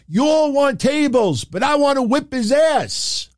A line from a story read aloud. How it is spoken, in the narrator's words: Even Moss yelled at the fans